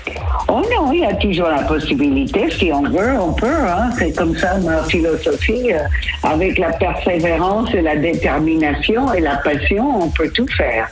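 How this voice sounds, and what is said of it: Slight American accent in French. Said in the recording (French): “vous avez toujours ce petit accent depuis 50 ans, vous ne l'avez jamais perdu cet accent américain”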